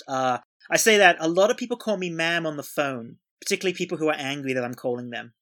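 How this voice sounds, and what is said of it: Mixed British and Australian accent. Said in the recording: “you don't have quite the mid-Atlantic accent. You are from both the UK and Australia, and your accent is kind of a bit of the both”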